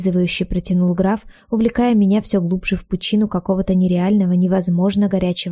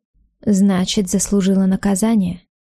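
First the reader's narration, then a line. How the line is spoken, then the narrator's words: Calm speech. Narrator (Russian): Спокойно продолжил он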